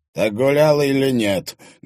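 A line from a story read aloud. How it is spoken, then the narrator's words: Menacing question. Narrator (Russian): грозно спросил Макарский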